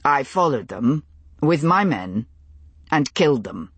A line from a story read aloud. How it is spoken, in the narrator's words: said, in the same level tone